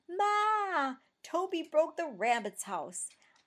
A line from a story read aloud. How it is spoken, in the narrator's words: Pete yelled from the hallway